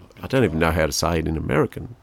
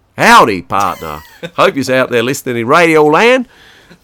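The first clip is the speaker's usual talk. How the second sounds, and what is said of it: Put-on American Southern accent. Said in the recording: “That's my southern accent.”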